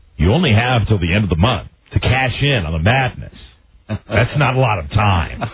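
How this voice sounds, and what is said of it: Radio commercial announcer voice. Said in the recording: “doing a Buzz Burbank commercial impression.”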